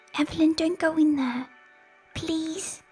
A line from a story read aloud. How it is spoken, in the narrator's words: Victoria whispered